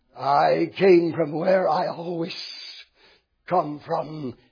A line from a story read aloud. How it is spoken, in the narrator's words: hissed Lucifer